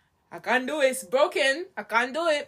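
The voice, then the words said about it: Imitated accent, possibly Hispanic. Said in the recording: “I don't know why I'm doing that... I don't know what accent it was. I think it was Hispanic.”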